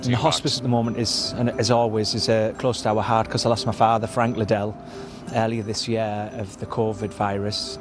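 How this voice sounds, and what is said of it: British accent. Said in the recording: “if you don't speak British, I can translate for you... Do you speak British?”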